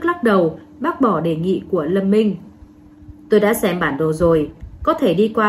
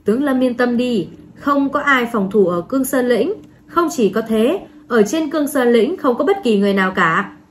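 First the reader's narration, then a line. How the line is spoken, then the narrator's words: Laughing loudly. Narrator (Vietnamese): Trình Sơn Hà cười lớn, nói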